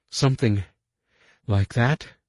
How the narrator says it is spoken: Haggerty gasped

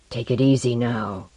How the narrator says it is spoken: a guard was whispering to him

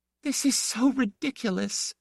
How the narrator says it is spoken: gasped

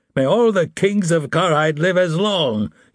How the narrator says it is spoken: he cried

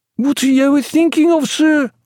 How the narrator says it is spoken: cried his steward

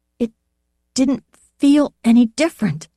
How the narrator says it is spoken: said in a choked voice

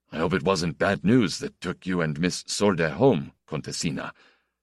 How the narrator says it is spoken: he asked Pierrot, in his low, husky voice

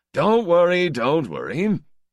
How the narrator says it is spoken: Karid said to me and them, with his hard laugh

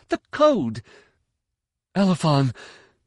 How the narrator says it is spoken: Morwan gasped

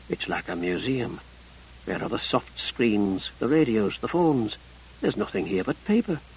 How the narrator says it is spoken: Bisessa felt compelled to whisper

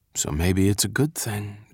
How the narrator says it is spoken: Dink murmured to Flip

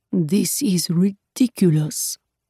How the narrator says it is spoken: he muttered

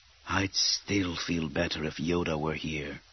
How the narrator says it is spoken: Kit Fisto muttered

